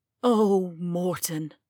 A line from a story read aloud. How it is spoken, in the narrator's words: Taya sighed